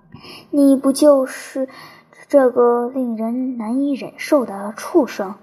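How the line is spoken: Through gritted teeth. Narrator (Chinese): 他咬牙切齿地说道

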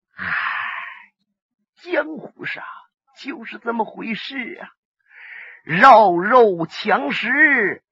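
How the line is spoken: Sighing. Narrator (Chinese): 这瞎子一明湖叹了口气

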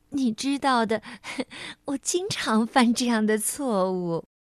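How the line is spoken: Embarrassed laugh. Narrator (Chinese): 他不好意思的笑着说

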